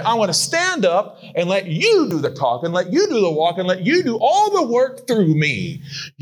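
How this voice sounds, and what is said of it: Southern American accent. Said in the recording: “I have a southern accent. I was raised by a man from Arkansas.”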